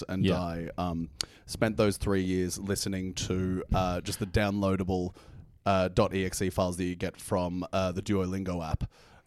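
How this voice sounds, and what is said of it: Hard-to-place South African-New Zealand accent. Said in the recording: “perfect melange of accents ... Very hard accent to place. Sounds kind of halfway between South Africa and New Zealand.”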